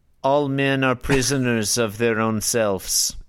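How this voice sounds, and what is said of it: Weak put-on Russian accent. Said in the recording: “Is that your Russian accent? ... It was not very good. I'd need to practice up again.”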